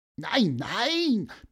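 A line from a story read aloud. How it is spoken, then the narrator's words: Squeaky voice. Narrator (German): piepste Pieper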